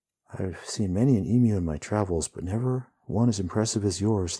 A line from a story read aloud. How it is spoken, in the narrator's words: the hero says